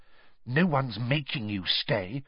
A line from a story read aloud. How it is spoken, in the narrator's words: Hermione whispered, bristling at her